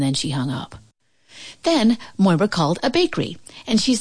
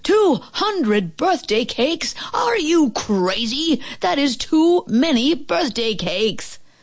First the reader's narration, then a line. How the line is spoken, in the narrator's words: The man at the bakery yelled